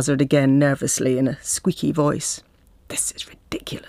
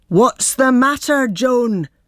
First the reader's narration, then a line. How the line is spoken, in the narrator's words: roars